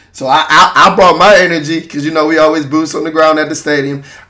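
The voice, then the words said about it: Hoarse, recovering lost voice. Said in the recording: “If you listen to my voice, I lost my voice. I'm just recovering now.”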